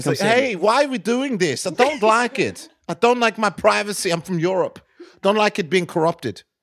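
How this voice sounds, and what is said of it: Imitates another person's voice. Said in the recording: “do his voice”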